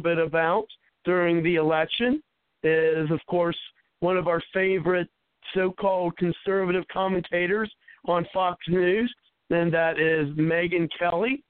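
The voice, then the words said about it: Hoarse, nearly lost voice. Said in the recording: “with my voice being gone almost for the past month now ... I had no voice, literally.”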